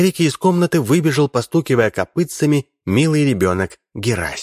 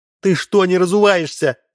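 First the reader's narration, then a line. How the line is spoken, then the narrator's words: Shouting after someone. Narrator (Russian): закричала вслед мужу Мощина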